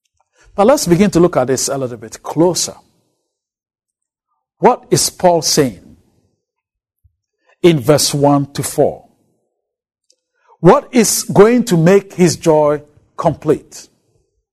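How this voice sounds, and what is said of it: African accent. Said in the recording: “my strange African accent”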